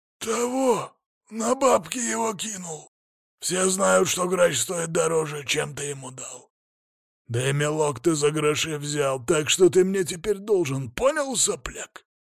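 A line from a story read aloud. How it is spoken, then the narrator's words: Growled. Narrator (Russian): прорычал детина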